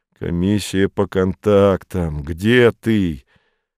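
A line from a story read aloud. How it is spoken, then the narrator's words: Sad. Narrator (Russian): Антон грустно сказал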